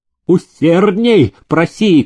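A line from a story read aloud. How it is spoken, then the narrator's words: Shouting. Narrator (Russian): кричал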